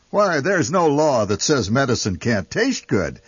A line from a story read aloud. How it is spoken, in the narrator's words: the family shouts in unison